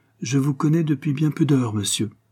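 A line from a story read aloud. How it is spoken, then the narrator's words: Plain. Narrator (French): dit-il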